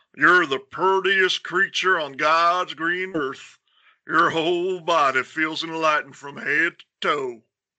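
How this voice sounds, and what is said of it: Put-on southern Texan accent. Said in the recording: “southern accent ... That's a perfect Texan accent”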